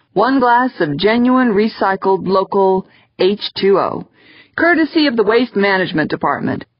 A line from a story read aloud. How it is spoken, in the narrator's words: said cheerfully